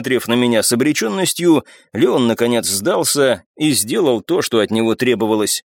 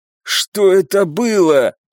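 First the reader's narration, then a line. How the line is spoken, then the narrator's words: Hoarse, unwell man. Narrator (Russian): прохрипел барон, которому было гораздо хуже, чем мне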